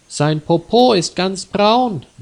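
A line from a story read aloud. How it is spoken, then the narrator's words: Calling out. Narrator (German): rief Peter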